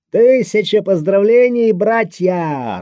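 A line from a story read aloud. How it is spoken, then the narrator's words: Joyful shout. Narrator (Russian): радостным голосом выкрикнул Обнорский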